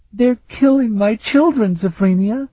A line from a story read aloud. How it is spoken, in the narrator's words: Afriel wailed